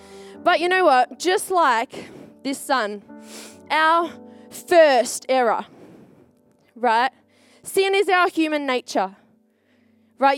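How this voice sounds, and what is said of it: Strained, fading voice. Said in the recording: “I went a bit crazy in praise and worship. My voice is on its way out.”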